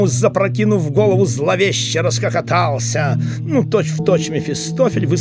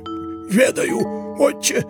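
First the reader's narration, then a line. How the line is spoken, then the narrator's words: Hoarse wheeze. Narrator (Russian): просипел Еропкин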